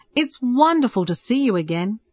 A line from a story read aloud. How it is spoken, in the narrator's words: Peter laughed and tears filled his eyes